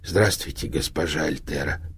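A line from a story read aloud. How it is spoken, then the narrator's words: Wheezing hiss. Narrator (Russian): просипел он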